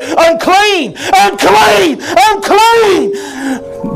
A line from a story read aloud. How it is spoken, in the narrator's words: screaming at the top of their voice